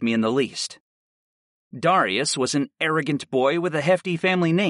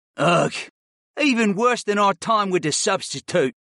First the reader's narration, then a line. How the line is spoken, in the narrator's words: Darius groaned